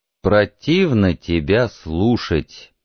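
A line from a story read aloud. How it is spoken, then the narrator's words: Slow reply. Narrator (Russian): медленно ответил Пауэлл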